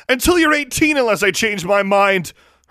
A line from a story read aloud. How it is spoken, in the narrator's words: her mother shouted